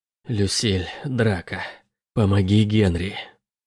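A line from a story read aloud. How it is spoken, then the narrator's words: Growled. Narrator (Russian): прорычала Роза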